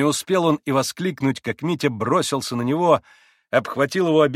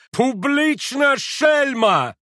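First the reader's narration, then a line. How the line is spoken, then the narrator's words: Embarrassed furious shout. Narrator (Russian): пан Врублевский, сконфуженный и взбешенный, закричал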